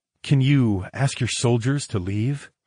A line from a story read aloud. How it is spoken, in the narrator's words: I purred into her ear